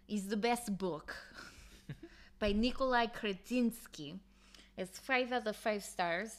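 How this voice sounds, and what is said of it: Put-on Russian accent, self-admittedly bad. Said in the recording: “I do a better Russian accent ... this is just going to come out bad. I don't know if I could do, like, a good Russian.”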